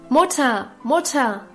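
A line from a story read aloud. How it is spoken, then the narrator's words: Calling from afar. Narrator (German): rief Guste schon von Weitem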